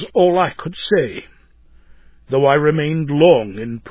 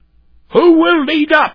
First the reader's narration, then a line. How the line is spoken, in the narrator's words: was bawled out by the red slop man